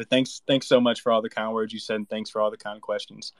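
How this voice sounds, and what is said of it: Southern twang accent. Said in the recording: “It's cool to hear someone else with the Southern twang. It's nice to hear my own native tongue in a space.”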